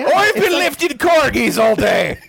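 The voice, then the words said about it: Exaggerated put-on Scottish accent. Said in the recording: “It's just Scottish as hell... Why did you make her Scrooge McDuck?”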